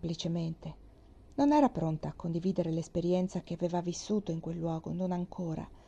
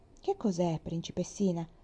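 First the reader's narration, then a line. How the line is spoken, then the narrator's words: Friendly question. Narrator (Italian): chiese in tono affabile Anselmo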